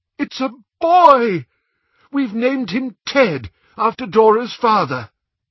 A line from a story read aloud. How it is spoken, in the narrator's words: cried aloud